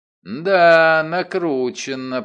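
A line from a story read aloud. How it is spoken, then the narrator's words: Drawling. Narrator (Russian): протянул я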